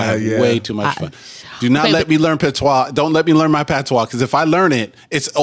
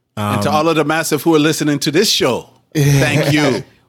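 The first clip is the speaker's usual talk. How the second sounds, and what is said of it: Put-on Jamaican accent. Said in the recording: “my brother suddenly became Jamaican”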